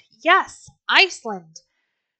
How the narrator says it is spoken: many of the men shouted

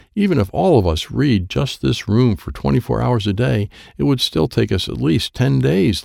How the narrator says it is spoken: laughed Wyatt

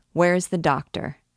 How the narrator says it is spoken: asked Charmolue

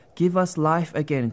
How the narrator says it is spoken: cried the cave desperately

